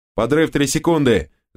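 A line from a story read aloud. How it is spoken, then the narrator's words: Shouting. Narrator (Russian): закричал один из минеров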